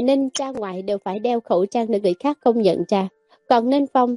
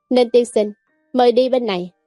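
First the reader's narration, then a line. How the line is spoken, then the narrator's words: Smiling. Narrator (Vietnamese): nhân viên phục vụ ... mỉm cười nói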